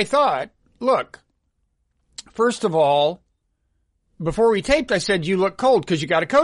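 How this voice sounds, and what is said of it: Usual voice. Nothing is said of it.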